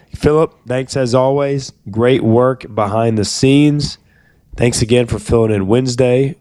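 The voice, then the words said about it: Strained voice close to giving out. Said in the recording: “hopefully by Monday I will be able to talk normally ... My voice may give out any second.”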